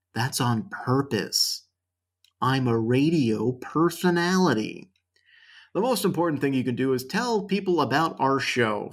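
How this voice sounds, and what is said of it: Worn-out voice with vocal fry. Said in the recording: “He doesn't sound like he's talked his entire voice out. No. That's vocal fry.”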